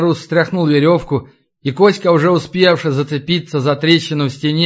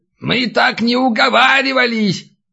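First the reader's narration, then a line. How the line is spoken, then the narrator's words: Old man yelling from below. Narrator (Russian): заорал снизу старик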